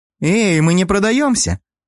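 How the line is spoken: Indignant young woman. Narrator (Russian): Возмутился кто-то из девиц

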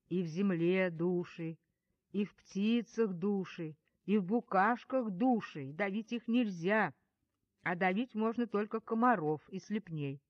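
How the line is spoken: Ominous lecturing voice. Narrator (Russian): Груня зловещим голосом поучала

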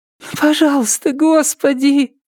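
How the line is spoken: Pleading. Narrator (Russian): взмолилась Триша

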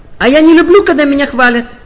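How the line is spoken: Sudden shout. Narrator (Russian): вдруг прокричала

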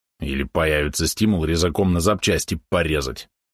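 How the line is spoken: Grumbled. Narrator (Russian): проворчал Валерон

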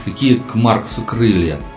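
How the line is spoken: Snorted with feigned irony. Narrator (Russian): фыркнул Анатолий, сделанной иронией

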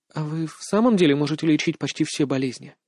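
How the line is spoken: Timid question. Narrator (Russian): Рута робко задала вопрос

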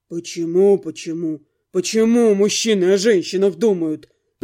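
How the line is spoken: Monster grumbling. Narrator (Russian): пробурчал монстр

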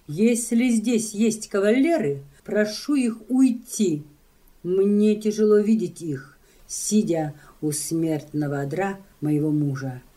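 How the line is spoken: Loud woman's speech. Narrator (Russian): капитанша громко говорит

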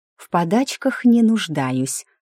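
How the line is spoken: Angry hiss. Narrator (Russian): зло прошипела я

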